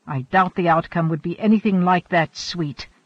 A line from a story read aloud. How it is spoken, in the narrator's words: Hanno snapped